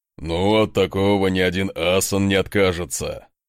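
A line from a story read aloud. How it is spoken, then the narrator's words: Loud laughter. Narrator (Russian): расхохотался Асмунд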